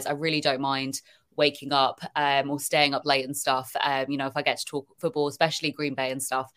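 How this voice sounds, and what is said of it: British accent. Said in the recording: “hearing a British accent and stuff come on ... I think your British accent is the least of the worries”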